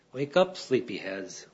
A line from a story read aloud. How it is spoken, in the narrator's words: sing softly